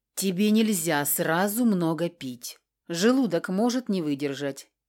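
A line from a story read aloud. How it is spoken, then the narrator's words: Calm, conversational. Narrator (Russian): пояснил он так спокойно, точно мы продолжили недавно прерванную светскую беседу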